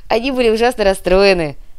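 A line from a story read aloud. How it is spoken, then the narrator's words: Childlike laughing speech. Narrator (Russian): как-то по-детски рассмеялся Никита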